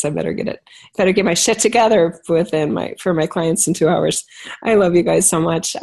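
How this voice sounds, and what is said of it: Hoarse, fading voice. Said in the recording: “You can tell I'm losing my voice.”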